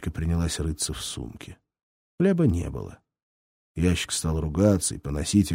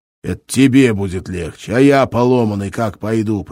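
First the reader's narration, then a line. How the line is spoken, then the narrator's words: Growl. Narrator (Russian): прорычал ящик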